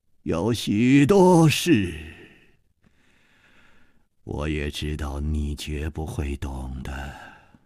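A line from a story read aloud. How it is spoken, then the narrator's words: Calm sigh. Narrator (Chinese): 李玉涵也不生气，竟又叹息了一声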